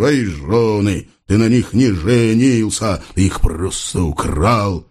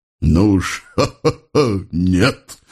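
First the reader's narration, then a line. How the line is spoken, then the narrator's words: Bitter laugh. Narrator (Russian): горько рассмеялся офицер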